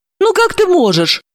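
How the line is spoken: Joyfully angry. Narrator (Russian): радостно рассердилась Далила

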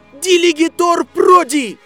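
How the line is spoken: Shouting. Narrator (Russian): один из близнецов Уизли закричал

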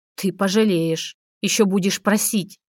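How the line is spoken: Hiss. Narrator (Russian): прошипел Буров

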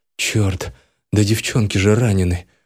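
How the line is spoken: Muttering. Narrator (Russian): пробормотал я

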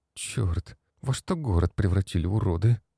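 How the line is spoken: Girl's quiet curse. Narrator (Russian): Девушка тихо выругалась

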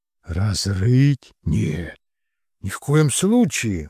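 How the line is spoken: Exclaimed. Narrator (Russian): воскликнул Кирилл

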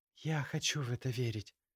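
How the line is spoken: Quiet, muffled against neck. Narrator (Russian): произнесла тихо она, уткнувшись носом в ямочку между его шеей и плечом

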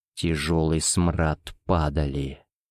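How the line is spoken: Whispering inner voice. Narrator (Russian): шептал очнувшийся разум

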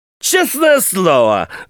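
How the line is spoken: Shouting. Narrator (Russian): закричал

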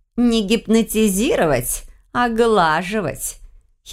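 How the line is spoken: Giggling. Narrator (Russian): Хихикнула

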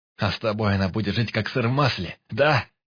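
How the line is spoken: Shout. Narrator (Russian): крикнул Баркас

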